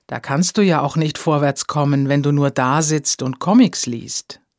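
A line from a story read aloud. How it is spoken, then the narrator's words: Plain. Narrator (German): sagte Edith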